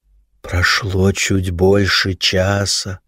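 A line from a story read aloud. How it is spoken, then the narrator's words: Sepulchral proclaiming voice. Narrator (Russian): за могильным голосом вещал гид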